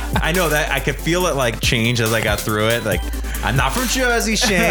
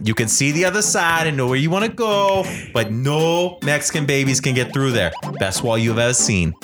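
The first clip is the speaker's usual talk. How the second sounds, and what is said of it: Bad impression drifting into Jersey accent. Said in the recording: “bad impression... You're not doing the great impression... At first, I thought you were coming from Jersey... the rising inflection”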